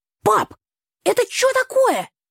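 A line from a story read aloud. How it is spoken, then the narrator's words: Shouting brother. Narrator (Russian): выкрикнул брат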